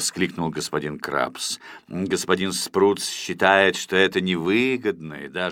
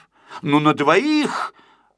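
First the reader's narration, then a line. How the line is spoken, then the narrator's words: Exclamation. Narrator (Russian): воскликнул Мига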